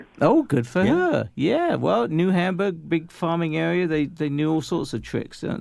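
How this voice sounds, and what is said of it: Male voice with an accent. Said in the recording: “sure has a cold today. And she's picked up an accent, too.”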